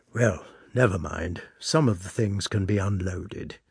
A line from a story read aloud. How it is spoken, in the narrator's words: he added in a soft, confidential voice, as though afraid of being overheard